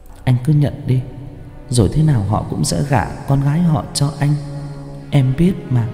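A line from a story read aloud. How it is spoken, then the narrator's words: Woman whispering softly. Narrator (Vietnamese): Nàng nói khẽ vào tai Bảo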